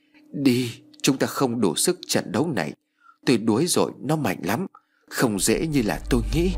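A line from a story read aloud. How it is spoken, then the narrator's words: Weak, exhausted whisper. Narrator (Vietnamese): Thầy Tầm run rẩy đôi tay, miệng thều thào nói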